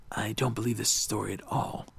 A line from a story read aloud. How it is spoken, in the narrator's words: Beauregard whispered to Amber